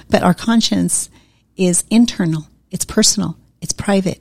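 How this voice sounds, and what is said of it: Accented English speech. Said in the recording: “here's where my accent becomes a problem”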